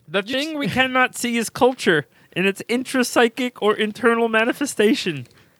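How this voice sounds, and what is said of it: Frog-like Jordan Peterson voice. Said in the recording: “You got to do in frog accent.”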